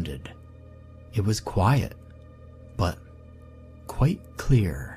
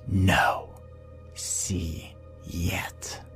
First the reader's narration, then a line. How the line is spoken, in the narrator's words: In a hissing tone